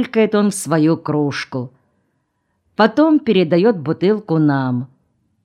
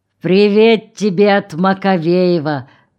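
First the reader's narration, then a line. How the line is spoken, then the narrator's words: Drunken voice. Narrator (Russian): пьяным голосом говорит Хыш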